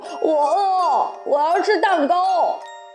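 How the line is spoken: Wailing, sobbing. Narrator (Chinese): 大灰狼嚎啕大哭

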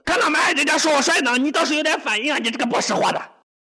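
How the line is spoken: Frantic wild barking. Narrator (Chinese): 苏木突然像抽风一样，转头对着主人狂吼不实，好像在说

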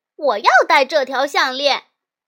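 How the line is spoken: Loud shouting. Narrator (Chinese): 露露大声喊

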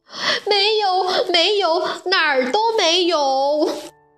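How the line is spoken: Crying out. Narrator (Chinese): 弗洛拉哭喊着说

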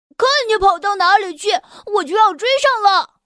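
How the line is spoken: Shouting. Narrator (Chinese): 多鲁基大喊着

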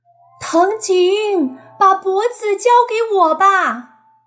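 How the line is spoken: Shouting. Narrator (Chinese): 秋叶对着大山喊道

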